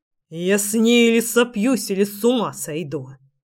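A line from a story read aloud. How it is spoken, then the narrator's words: Angry hiss. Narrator (Russian): прошипел злобно Генрих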